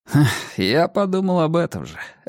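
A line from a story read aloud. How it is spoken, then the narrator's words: Laughing. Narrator (Russian): рассмеялся я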